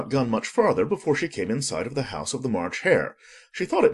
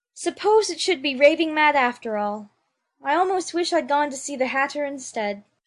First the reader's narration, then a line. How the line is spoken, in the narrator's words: saying to herself